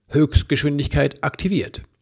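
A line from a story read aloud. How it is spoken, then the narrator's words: Unseen voice calling out. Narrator (German): eine unsichtbare Stimme rief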